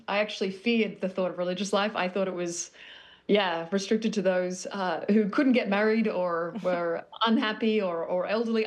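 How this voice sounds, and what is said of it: Australian accent. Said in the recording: “I'm not from Brooklyn, but I'm working on my accent, which is clearly failing. I'm originally born Sydney, Australia”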